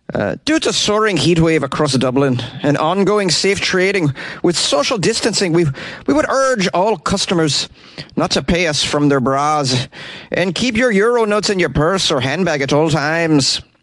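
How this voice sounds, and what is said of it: Put-on Irish accent. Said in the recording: “I'm going to try to do an Irish accent. ... I think that was pretty good, right, for an American?”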